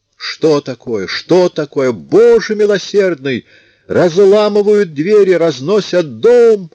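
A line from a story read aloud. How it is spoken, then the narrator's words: Loud yelling. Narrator (Russian): орала она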